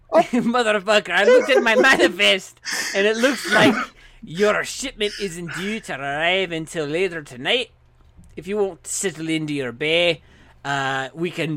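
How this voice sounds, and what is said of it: Put-on Jamaican Scottish dwarf accent. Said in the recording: “That is a lovely accent. What accent is that? Is that space Jamaican Scottish? ... Is that French Jamaican? ... I am dwarvish in space.”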